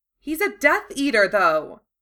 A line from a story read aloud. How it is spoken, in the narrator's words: Lavender exclaimed